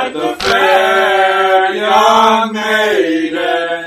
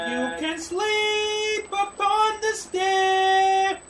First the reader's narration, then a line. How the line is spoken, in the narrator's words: cried the fair young maiden